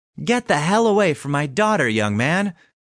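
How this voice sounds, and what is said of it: Squeaky yelled voice. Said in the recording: “yelled in a disappointingly squeaky voice”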